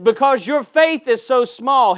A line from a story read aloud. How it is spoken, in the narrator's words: he replied